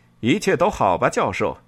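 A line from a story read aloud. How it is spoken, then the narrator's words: Loud, smiling. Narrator (Chinese): 他笑了一下，大声说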